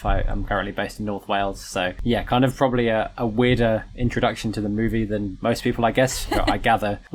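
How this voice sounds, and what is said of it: British accent. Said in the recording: “as people can probably tell from my voice, I'm not from the US. I am British, born and raised”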